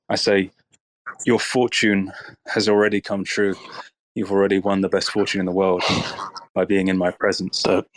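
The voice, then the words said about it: Speaks with a charming accent. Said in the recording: “with your accent, like, even I kind of am charmed”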